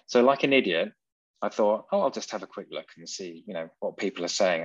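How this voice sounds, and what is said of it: English accent. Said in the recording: “what's that for a weird accent? ... I'm English ... faking this British accent”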